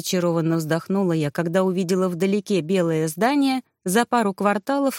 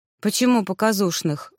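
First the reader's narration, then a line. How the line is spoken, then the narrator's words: Sighing. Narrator (Russian): вздохнула Солли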